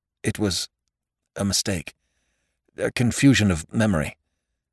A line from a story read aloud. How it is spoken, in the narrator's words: Faxon heard himself stammer